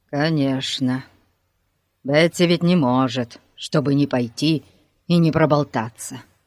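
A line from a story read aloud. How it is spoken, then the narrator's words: Gloomy mutter. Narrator (Russian): хмуро пробормотал Пип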